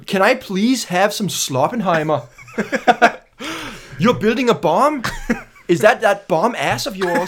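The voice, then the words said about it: Good put-on Danish accent. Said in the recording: “See, that was good Danish accent. That was great.”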